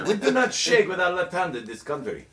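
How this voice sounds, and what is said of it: Nondescript put-on foreign accent. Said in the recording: “a fairly nondescript... I could put you many places in the world... Not Indiana”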